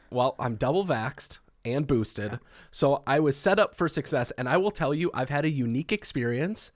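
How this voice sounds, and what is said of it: Sick-sounding voice. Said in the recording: “if you can't hear it in my voice, I got it, Scott. I got COVID.”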